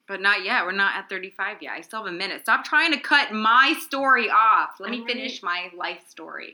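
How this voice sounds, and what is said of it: Usual voice. Nothing is said of it.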